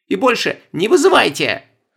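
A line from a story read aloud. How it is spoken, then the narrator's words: Harsh bark. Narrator (Russian): рявкнула Стефания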